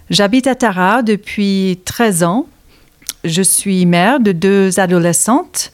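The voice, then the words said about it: American accent speaking French. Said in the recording (French): “Vous entendez par mon accent, je suis née aux États-Unis”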